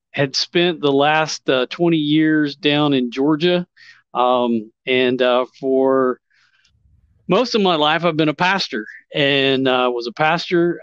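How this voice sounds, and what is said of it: Southern US accent. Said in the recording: “if you can't tell by the accent, I'm a Southern boy”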